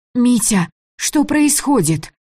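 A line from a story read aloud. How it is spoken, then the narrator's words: Shouting. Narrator (Russian): Закричала Таня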